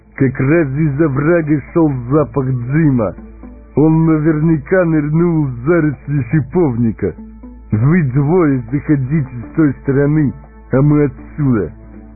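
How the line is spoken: Loud voice. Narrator (Russian): кто-то громко сказал

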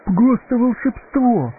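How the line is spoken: Delighted exclamation. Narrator (Russian): восхищенно воскликнул Пипин

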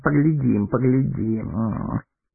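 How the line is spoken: Muttering. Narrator (Russian): пробормотал Мэри

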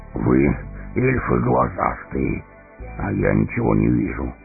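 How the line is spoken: Breathless grumble. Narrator (Russian): проворчал Гимли, тяжело дыша

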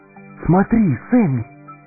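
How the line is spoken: Amazed exclamation. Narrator (Russian): изумленно воскликнул Фродо

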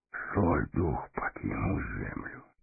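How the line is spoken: Whispered. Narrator (Russian): прошептал Гэндальф

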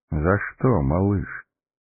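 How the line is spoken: Tender question. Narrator (Russian): ласково спросил маг

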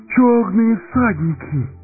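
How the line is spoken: Terrified exclamation. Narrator (Russian): воскликнул Пипин

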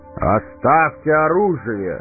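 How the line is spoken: Booming shout. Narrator (Russian): зычно крикнул он

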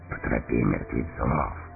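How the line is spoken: Whisper. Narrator (Russian): прошептал Эомер

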